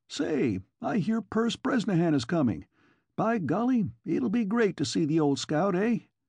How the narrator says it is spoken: Sam Clark cried to Kennicott

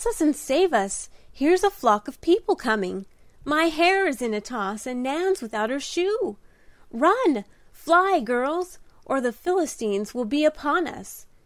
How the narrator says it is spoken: cried Di, tumbling off her perch in sudden alarm

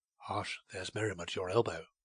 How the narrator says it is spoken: whispered

